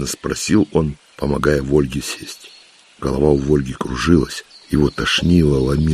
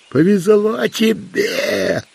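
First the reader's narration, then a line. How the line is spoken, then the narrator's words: Yelling as if to deaf. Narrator (Russian): Вопил Тимоха в Вольге точно глухому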